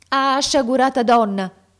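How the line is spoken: Exclamation. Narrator (Italian): esclamai io

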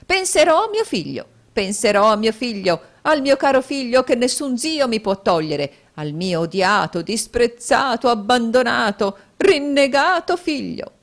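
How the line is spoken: Shrieked. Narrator (Italian): strillò la signora Kenwigs

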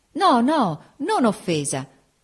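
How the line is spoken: Sincere cry. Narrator (Italian): gridò la sincera Augusta

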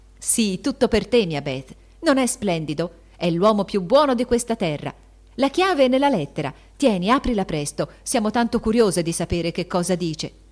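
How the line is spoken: Shouting. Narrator (Italian): gridò Joe

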